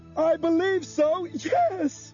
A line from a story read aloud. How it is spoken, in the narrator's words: Bob yelled back